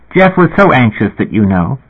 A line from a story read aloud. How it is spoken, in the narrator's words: she said in a bright, chipper voice